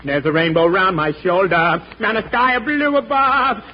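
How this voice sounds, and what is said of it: Singing, imitates another person's voice. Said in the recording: “my imitation of Al Jolson”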